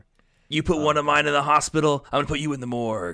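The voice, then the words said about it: Imitates another person's voice with accent. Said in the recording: “Sorry, I did the accent.”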